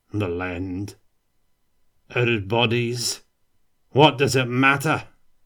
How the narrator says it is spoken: the dwarf cackled

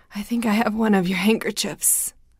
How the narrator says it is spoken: Lizzie said, her voice trembling

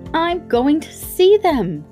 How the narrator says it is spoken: cried Colin

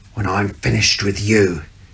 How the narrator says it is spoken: hissed

